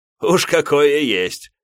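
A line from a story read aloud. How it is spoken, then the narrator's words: Short laugh. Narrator (Russian): хохотнул мой собеседник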